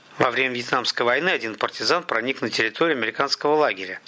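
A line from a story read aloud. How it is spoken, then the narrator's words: Plain. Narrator (Russian): сказал Михаил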